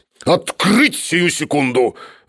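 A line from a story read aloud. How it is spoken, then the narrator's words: Wild muffled roar behind door. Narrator (Russian): дикий голос Шарикова глухо проревел за дверью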